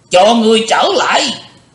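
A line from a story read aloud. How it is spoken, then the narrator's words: Cold scream. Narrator (Vietnamese): Hắn thét lên lành lạnh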